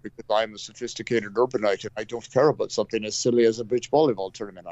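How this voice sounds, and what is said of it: Pompous upper-class put-on accent. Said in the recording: “I don't know what accent I'm putting on now ... I have no idea what accent you're using, but, you know, it's sure, it works ... it's my pompous Forest Hill accent”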